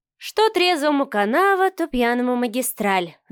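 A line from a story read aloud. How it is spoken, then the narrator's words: Sigh. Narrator (Russian): вздохнула Марианна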